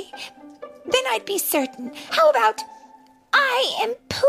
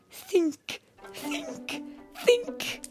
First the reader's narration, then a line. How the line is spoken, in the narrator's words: he muttered